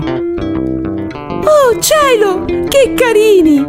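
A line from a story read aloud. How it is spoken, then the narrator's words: Doll exclaims. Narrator (Italian): esclama poi la bambolina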